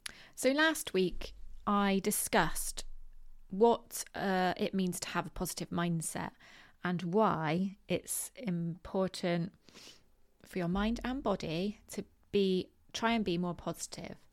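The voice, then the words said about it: West Country English accent. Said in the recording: “my West Country accent”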